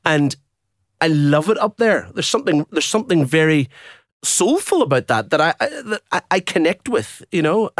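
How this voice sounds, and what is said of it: Irish accent. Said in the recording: “With an Irish accent.”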